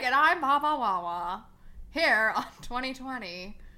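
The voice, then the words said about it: Imitates another person's voice. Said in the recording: “That's how Barbara Walters talks.”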